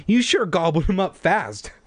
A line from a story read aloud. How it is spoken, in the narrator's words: I exclaimed